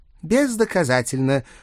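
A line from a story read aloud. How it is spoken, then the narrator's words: Scoffing snort. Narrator (Russian): фыркнул месье Шабли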